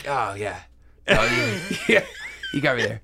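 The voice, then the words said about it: Impression of Jesus. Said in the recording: “impersonating Jesus”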